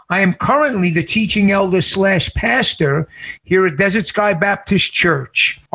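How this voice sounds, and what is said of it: New York City accent. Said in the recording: “from New York City, as you can tell by my accent.”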